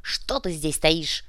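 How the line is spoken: Barked. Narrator (Russian): рявкнул он

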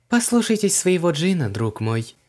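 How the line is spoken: Ringing, kindly voice. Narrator (Russian): звенящим голоском посоветовала дама, ласково улыбаясь

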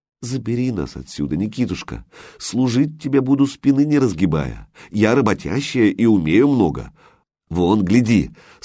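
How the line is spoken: Tender pleading. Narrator (Russian): попросила, нежно в глаза заглядывая

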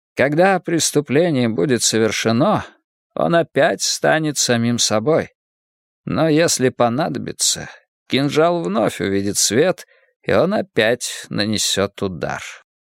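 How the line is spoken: Soft voice. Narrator (Russian): продолжал сыщик мягким голосом

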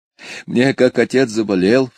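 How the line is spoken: Sobbing speech. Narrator (Russian): всхлипывая говорила Дуся

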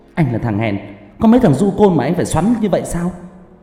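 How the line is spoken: Loud shouting woman. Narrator (Vietnamese): cô gái lại to mồm quát lớn

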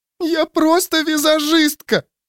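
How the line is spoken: Girl sobbing. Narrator (Russian): рыдала девчонка

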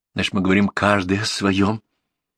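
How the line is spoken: Dejected statement. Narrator (Russian): констатирует рыцарь упавшим голосом

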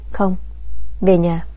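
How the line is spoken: Resigned sigh. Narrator (Vietnamese): Biết rằng mọi chuyện đã rõ ràng, Đồng Nguyệt Hân thở dài

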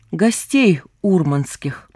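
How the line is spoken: Plain. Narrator (Russian): ответил Вольгост

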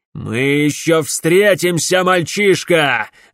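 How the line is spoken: Angry shout after someone. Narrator (Russian): гневно крикнул ему вдогонку Клайд

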